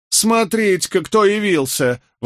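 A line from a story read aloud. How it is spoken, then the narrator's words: Exclaimed, aunt. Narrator (Russian): воскликнула тетка Скамблера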